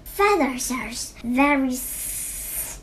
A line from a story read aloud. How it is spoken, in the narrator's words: hissed Snake